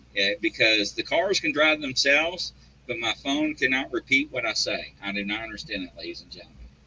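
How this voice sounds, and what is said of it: Speaks with a strong accent. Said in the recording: “with my accent, I cannot do speech to text”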